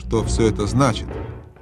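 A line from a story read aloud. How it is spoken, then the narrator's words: Menacing question. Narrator (Russian): грозно спросила королева-колдунья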